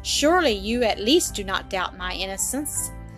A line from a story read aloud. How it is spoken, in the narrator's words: said Mary, in a reproachful voice, interrupting him